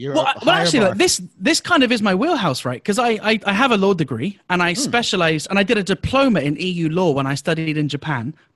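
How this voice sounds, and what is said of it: Foreign accent. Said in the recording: “You have an accent, so we respect your accent.”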